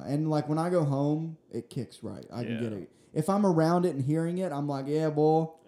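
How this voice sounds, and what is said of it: Southern American accent. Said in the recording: “southern fucking bumpkin ... my accent was way thicker ... now people still know I have one ... they can tell I'm not from here”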